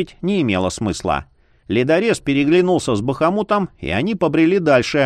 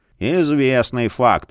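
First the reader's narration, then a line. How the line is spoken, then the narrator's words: Sullen mutter. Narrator (Russian): Угрюмо буркнул Марий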